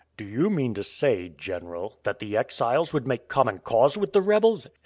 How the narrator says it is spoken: exclaimed the Tsar

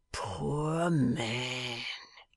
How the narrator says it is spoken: he murmured in a low tone, with a crafty face

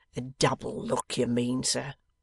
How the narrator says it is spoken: rejoins Wegg, playing bitterly upon the word

